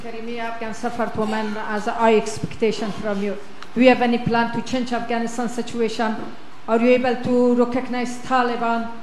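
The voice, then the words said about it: Strong accent, hard to understand. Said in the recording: “I have a little hard time understanding you. ... it's a beautiful voice and a beautiful accent. The only problem is I can't understand a word you're saying.”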